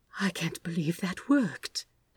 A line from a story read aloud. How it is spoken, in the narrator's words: Aziraphale said faintly